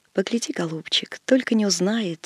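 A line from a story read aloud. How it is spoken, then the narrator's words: Old woman's soft call. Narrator (Russian): тихо позвала старушка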